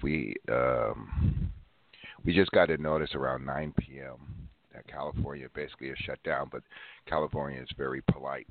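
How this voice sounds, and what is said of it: Sick, under-the-weather voice. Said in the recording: “I'm a little under the weather right now, as you can probably hear from my voice.”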